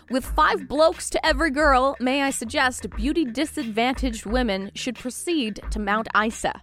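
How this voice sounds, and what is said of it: Attempted Australian accent. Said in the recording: “I'm not Australian, so it was clearly delivered in a much better accent than mine”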